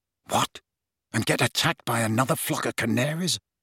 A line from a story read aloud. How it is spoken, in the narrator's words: muttered Ron